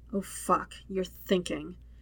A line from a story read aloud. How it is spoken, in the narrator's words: Zuko mumbles